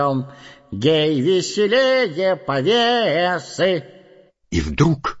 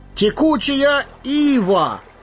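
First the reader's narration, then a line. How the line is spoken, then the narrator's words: Exclaiming. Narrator (Russian): воскликнул Пипин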